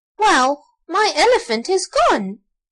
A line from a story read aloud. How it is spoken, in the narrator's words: exclaimed Archie